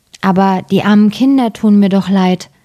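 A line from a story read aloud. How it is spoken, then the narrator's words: Plain. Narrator (German): sagte der Mann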